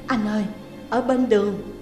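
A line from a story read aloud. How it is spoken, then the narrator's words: Frightened, trembling. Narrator (Vietnamese): Trà run rẩy, cô nói với giọng sợ hãi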